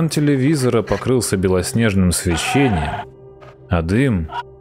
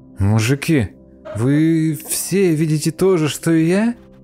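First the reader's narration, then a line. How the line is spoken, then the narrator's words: Uncertain question. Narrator (Russian): неуверенно спросил поганка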